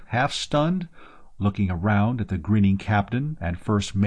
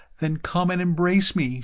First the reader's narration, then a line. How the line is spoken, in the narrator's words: she cried